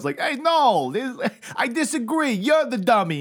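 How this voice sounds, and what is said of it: Poor put-on New York woman accent. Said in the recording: “Your New York lady accent is terrible... Your New York lady accent's a crap... It's a travesty”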